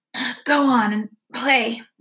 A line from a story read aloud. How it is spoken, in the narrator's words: Ashamed, I would gasp